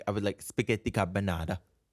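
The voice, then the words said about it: Bad put-on Italian accent. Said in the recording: “That's like a bad Italian accent.”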